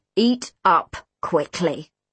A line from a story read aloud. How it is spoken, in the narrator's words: he growled in a voice that made my skin itch